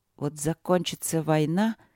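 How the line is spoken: Angry mutter. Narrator (Russian): сердито бормотала Василина

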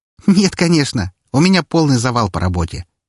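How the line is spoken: Cheerful snort. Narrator (Russian): весело фыркнула

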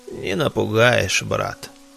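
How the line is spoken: Distinct hoarse old man. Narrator (Russian): отчетливо прохрипел старик

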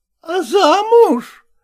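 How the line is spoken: Exclamation. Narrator (Russian): воскликнула Маримьяна Ивановна

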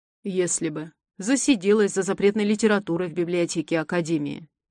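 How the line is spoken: Wry snort. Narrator (Russian): хмыкнул профессор

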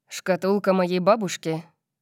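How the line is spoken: Gloomy, frowning. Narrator (Russian): сказал он, мрачно нахмурившись

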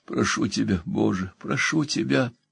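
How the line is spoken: Moaning plea. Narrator (Russian): стонал он

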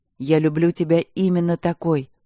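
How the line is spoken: Plain. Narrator (Russian): ответил Мариан

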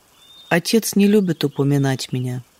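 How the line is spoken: Soft, unaffected. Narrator (Russian): сказал мягко, не рисуясь и не жалуясь

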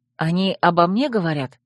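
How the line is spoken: Quiet. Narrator (Russian): Земка тихо продолжал

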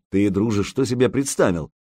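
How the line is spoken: Mocking question. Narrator (Russian): насмешливо спросил Илья

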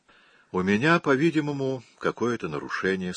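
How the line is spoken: Calm, young woman. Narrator (Russian): спокойно ответила девушка

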